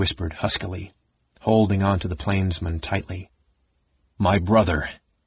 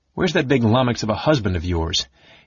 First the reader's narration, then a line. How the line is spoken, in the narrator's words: he asked cheerfully